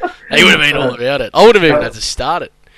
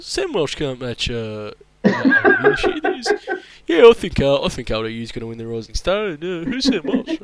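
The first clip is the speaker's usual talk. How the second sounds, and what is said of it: Impression of a co-host. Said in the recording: “That was actually a pretty good impression, actually.”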